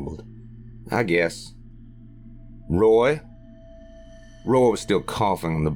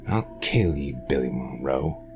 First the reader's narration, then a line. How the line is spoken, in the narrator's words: he growled